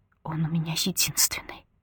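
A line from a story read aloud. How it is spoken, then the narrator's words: Quiet, ambiguous tone. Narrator (Russian): негромко произносит она, и по ее тону невозможно понять, мольба это угроза или предостережение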